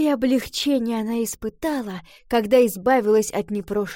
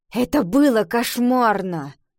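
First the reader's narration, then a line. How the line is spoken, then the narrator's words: Grumbling mutter. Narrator (Russian): Пробурчала Ива в ответ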